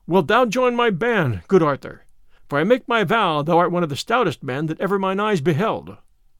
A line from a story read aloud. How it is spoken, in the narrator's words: Robin laughed again, and he said